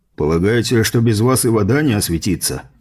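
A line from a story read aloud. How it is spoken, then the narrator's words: Scoffing grunt. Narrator (Russian): хмыкнул Эссен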